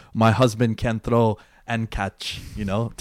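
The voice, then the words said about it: Bad put-on Brazilian accent. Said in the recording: “Terrible Brazilian accent.”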